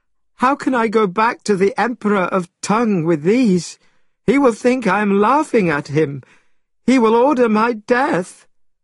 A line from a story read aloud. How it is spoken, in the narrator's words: Tripitaka cried